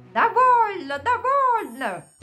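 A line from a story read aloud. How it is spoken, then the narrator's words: Screaming in horror. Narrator (Russian): в ужас закричала, хватаясь за голову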